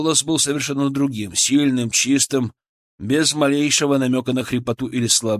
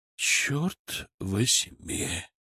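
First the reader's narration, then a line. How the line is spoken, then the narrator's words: Exhaled exclamation. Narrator (Russian): выдохнул Киселев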